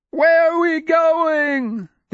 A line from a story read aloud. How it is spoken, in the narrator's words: The youngest of them, a Galeoth adolescent with the strange name of Heresius, began shrieking